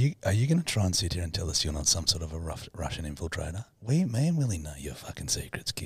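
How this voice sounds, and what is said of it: Usual voice. Nothing is said of it.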